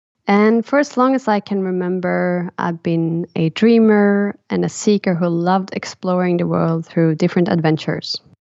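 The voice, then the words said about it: Swedish accent. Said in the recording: “as you might hear from my accent, I come from Sweden”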